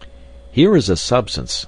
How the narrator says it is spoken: I cried

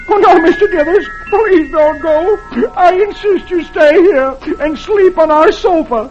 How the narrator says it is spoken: the tears roll down Dagwood's cheeks, and he sobs

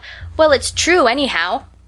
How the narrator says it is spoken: Johnny called out

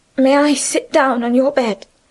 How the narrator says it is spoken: Remarkable on other occasions for her cold composure, her voice trembled

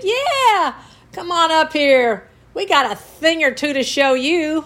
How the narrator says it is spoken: the guys on the top mockingly said

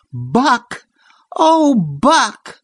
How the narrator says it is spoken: she cried out joyously

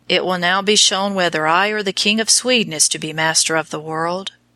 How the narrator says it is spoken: said Wallenstein gloomily

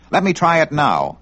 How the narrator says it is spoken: Vic begged

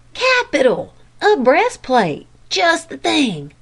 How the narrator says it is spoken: cried Jack

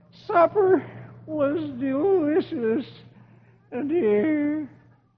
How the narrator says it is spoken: And Dagwood groans

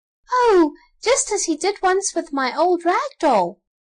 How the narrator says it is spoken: cried Elsie

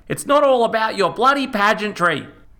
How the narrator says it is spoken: yelled

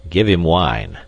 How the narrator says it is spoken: growled a stout fellow

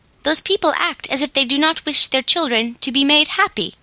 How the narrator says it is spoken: said sensible Peter in a vexed tone

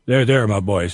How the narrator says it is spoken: said the skeleton, in a fatherly tone

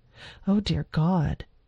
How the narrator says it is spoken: Alandra mumbled

